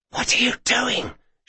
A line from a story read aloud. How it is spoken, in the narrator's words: she hissed